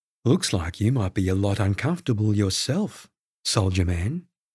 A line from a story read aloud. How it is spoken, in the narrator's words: I purred, doing my best impression of sultry I could manage without blushing